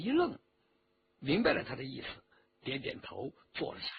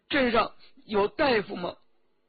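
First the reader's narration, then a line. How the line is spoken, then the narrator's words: Tearful question. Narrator (Chinese): 周启哭了一会儿，就问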